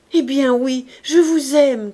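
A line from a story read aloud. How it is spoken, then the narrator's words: Shouted. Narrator (French): cria-t-il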